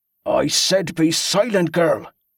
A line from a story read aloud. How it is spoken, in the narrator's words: Angus growled through clenched teeth